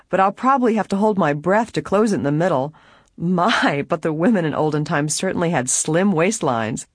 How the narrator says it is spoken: laughingly she added

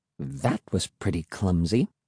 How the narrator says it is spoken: Emily said softly

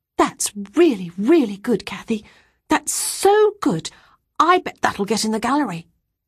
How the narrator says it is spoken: exclaiming

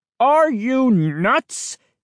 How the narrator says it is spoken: He bellowed

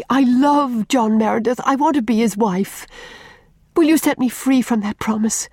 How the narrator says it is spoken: said desperately

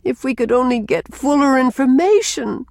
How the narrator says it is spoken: moaned Rilla

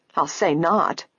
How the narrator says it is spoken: Isabel echoed, her voice tart

